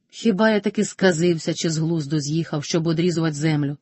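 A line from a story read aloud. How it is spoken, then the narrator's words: Plain. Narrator (Ukrainian): сказав Карпо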